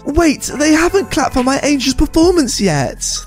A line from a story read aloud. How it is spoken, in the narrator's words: the entitled mum yells out